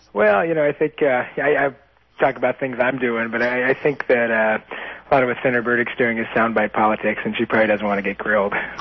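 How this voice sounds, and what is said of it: Hoarse, nearly lost voice. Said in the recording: “losing my voice for the last couple of days ... campaigning so hard you're going to lose your voice ... It's just about gone”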